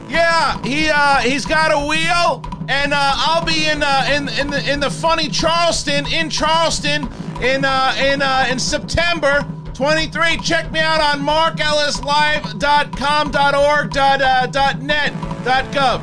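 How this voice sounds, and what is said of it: Yelling very loudly. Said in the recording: “You don't need to yell. ... about 100 decibels.”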